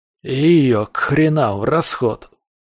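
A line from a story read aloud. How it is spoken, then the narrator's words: Growled. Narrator (Russian): рыкнул Лом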